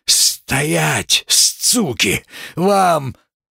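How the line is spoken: Exhausted hoarse rasp. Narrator (Russian): Клёпа прохрипел

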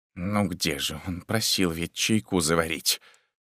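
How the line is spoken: Confused muttering. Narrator (Russian): Святой брат несколько растерянно … бормоча

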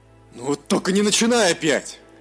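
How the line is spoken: Barked. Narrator (Russian): Рявкнул Мируэль

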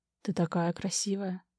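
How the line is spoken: Barely audible young man. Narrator (Russian): едва слышно произносит парень

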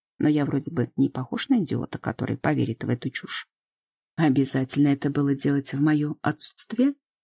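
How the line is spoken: Stern, displeased. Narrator (Russian): Строго высекаю, недоволен

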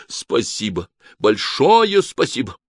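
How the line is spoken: Frightened whisper. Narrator (Russian): Август испуганно отшатнулся к стене и прошептал

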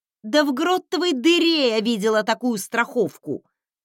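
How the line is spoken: Sharp bark. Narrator (Russian): Рявкнула

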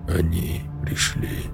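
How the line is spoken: Barely audible lifeless whisper. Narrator (Russian): вдруг едва слышно прошептал Рон безжизненным голосом

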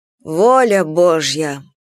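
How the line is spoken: Sighing. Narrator (Russian): вздохнула Анфиса

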